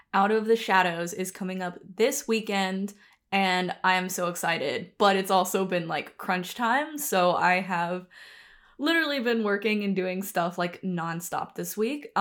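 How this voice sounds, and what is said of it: Rough, tired-sounding voice. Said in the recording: “my voice sounds a little rough today. I am very sleep deprived”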